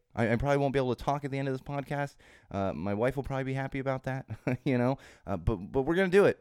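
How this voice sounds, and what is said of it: Slightly hoarse, altered voice. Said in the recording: “you can probably hear that my voice is a little bit different this week ... make my throat sore ... still recovering my voice. It's not fully back yet”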